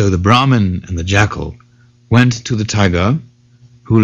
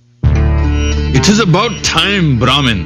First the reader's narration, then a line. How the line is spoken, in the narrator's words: the tiger roared